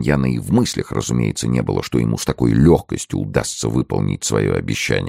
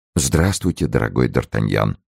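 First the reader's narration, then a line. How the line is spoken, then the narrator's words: Cold reply. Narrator (Russian): холодно ответил прелат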